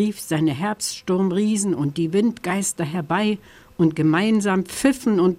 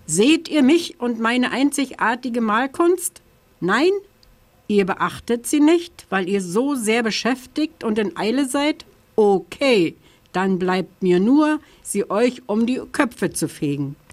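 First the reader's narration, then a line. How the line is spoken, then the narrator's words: October calling out. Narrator (German): rief der Oktober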